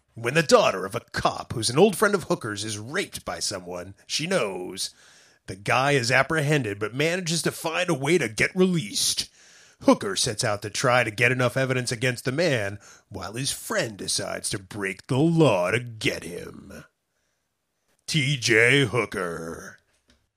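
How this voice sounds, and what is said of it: 1970s TV announcer voice. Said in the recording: “my best ABC 1970s TV announcer voice”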